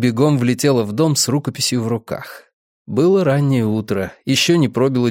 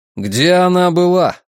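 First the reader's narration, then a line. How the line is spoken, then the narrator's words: Irritated question. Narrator (Russian): раздраженно спросил Гарри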